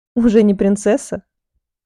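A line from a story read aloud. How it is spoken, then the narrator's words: Short laugh. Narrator (Russian): хохотнула я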